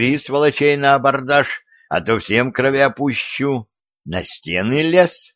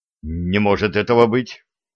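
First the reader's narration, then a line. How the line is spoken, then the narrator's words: Frightened. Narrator (Russian): испуганно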